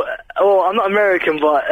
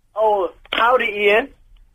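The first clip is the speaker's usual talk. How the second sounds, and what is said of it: Bad put-on American accent. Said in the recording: “is that you trying to do an American accent? ... No, you sound absolutely awful ... you sound as though you should perhaps be in sheltered accommodation”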